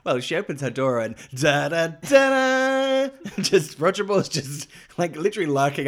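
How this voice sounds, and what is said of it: Usual voice. Nothing is said of it.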